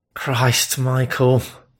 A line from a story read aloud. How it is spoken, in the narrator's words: muttered, cheeks heating in embarrassment